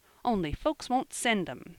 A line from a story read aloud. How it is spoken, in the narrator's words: he added, in an injured tone